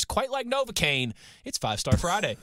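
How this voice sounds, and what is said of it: Imitates another person's voice. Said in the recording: “I was doing my best Denzel Washington. Right, remember the Titans impersonation.”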